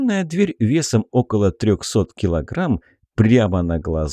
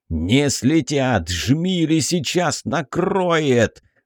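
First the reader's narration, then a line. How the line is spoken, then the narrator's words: Growling. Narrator (Russian): рычал Шмель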